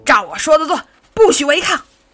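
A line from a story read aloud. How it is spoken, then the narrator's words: Furious roar. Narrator (Chinese): 妈妈咆哮起来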